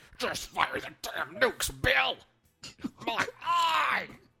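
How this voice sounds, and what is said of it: Impression of an angry colonel character. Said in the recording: “That's my Thai impression. My Colonel I impression”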